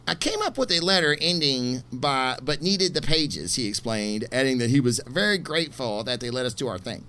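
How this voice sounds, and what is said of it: Imitates another person's voice. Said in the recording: “I'm going to try to do this in my Bendis voice ... So that was my Bendis impersonation, which is probably so far off you would not even believe it”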